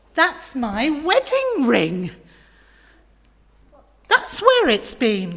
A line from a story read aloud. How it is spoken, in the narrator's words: cried Lydia